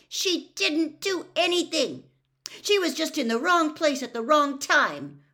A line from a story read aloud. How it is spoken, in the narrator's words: Hermione snapped at Percy